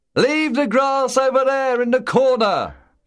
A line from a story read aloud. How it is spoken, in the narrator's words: Buster shouted over the noise of the howling wind